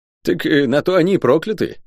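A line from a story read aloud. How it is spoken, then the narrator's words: Snorting. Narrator (Russian): хмыкнул Леопард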